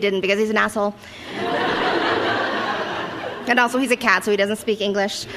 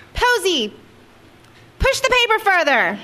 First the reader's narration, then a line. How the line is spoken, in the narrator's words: I yelled